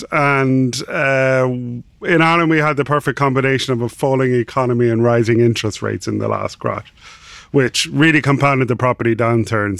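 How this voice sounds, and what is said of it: Irish accent. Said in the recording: “So I'm Irish, obviously from the accent.”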